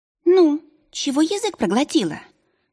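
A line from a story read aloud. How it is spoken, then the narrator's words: Snide squeak. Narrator (Russian): ехидно пропищал синий товарищ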